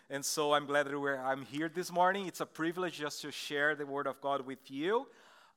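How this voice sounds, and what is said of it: Brazilian Portuguese accent. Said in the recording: “I'm from Brazil. That's why you're going to have like this weird accent here.”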